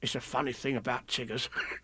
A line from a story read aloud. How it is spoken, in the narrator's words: whispered Tigger to Roo